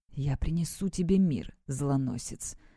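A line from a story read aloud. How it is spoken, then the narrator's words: Whispered. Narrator (Russian): прошептал он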